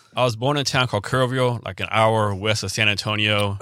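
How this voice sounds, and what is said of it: Slight regional accent. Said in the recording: “You've got a little bit of an accent.”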